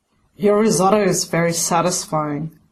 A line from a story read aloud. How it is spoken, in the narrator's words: he rumbles in that deep, contented voice he only gets after a good snog